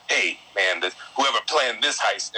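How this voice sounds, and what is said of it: Over-the-top New York accent. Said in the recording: “some guy's doing a New York accent over the top”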